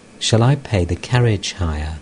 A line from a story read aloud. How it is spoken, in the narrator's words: Vidyasagar to M softly